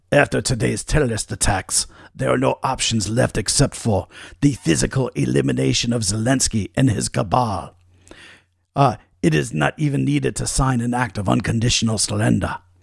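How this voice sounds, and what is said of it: Put-on Russian accent. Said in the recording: “That's my Russian accent for you, by the way. I don't know if that was good or not”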